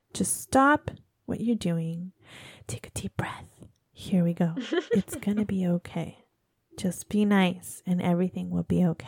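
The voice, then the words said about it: Calm, soothing relaxed voice. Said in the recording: “in my nice relaxed voice.”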